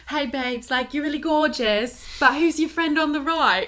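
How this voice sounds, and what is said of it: Attempted British accent. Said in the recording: “she was British, so I'm going to try to do a British accent”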